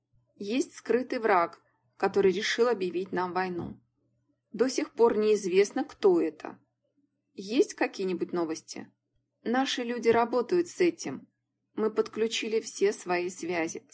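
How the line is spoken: Plain. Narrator (Russian): сказал Джонс

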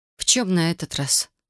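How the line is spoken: Sigh. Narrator (Russian): вздохнула я

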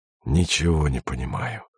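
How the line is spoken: Desperate mutter. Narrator (Russian): пробормотал Андрей почти с отчаянием

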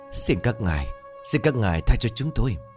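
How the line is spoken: Trembling, stammering plea. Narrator (Vietnamese): run rẩy, miệng lắp bắp cầu khấn

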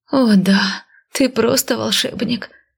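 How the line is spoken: Pleasured moaning. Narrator (Russian): стонала я через 10 минут, сидя на диване, когда Венька стащил с меня туфли и принялся разминать мои ноги

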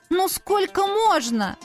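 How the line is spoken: Desperate shout. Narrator (Russian): В отчаянии крикнула

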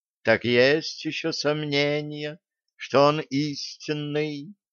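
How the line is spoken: Purring kitten. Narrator (Russian): промурлыкал котенок

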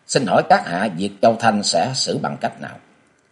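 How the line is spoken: Cold question. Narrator (Vietnamese): Với giọng lạnh lùng, Thạch Lan Hoa hỏi

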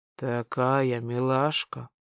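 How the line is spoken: Whispered. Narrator (Russian): прошептал

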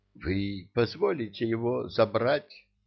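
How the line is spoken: Timid question. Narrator (Russian): робко спросил он у Ильи

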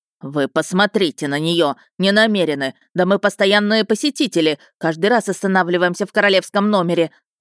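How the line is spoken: Man shouting. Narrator (Russian): выкрикнул мужчина

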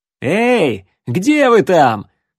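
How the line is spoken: Pleased shout. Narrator (Russian): довольно крикнул Рексволд

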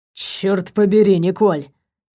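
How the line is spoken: Thoroughly drunk voice. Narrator (Russian): сказал он совершенно пьяным голосом

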